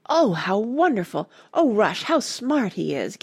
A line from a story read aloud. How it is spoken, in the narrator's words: gasped Randy